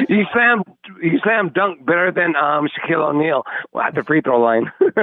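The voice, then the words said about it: Imitates another person's voice. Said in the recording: “That's ... doing his beer-drinking Brian impersonation”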